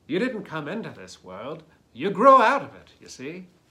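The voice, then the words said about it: Alan Watts impersonation. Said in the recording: “That's my Alan Watts impersonation, if you like.”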